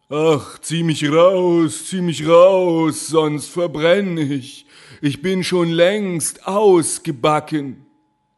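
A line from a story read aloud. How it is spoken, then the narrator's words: Call. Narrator (German): Das Brot aber rief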